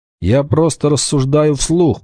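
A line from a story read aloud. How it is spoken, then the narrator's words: Grumbled. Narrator (Russian): проворчал Вольф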